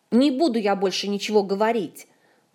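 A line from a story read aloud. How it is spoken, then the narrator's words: Trembling indignant shout. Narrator (Russian): дрожащим от возмущения голосом выкрикнул Артура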